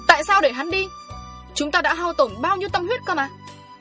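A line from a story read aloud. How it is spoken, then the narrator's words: Hissing angrily. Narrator (Vietnamese): Ông đại đường rít lên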